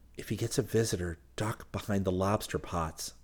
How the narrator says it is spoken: he whispered

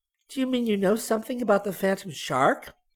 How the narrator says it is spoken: Barbie asked eagerly

